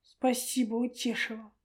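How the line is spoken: Through gritted teeth. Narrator (Russian): процедил сквозь зубы Черпаков

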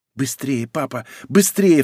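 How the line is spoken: Anxious child's babble. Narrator (Russian): встревоженно лепетала дочь за дверью

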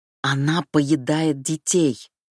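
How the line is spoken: Near growl. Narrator (Russian): почти прорычала Сети

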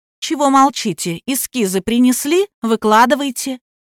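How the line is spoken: Exclaimed. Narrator (Russian): женщина воскликнула

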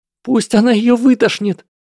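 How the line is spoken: Shrieking. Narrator (Russian): завопила Панси

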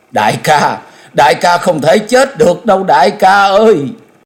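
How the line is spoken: Anguished crying out. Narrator (Vietnamese): Nàng cất tiếng thống thiết kêu lên

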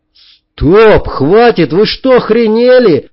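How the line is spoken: Yelled. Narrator (Russian): заорал я

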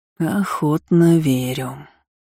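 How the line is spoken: Slow, deliberate. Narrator (Russian): медленно проговорил секретарь

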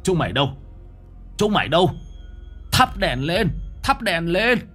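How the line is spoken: Loud shout. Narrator (Vietnamese): Ông Du hét lớn

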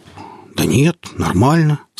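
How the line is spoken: Uncertain. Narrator (Russian): сказал неуверенно

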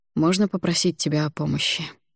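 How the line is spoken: Said softly. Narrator (Russian): негромко произнес Хванец

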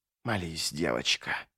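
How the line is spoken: Whisper through grinding teeth. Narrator (Russian): прошептал едок, скрежеща разрушенными зубами

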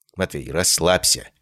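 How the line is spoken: Quiet. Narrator (Russian): сказал я ему тихонько

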